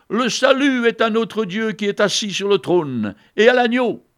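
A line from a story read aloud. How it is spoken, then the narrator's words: Crowd shouting loudly. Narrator (French): Ils criaient d'une voix forte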